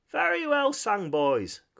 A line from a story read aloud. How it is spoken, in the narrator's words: cried the Rat heartily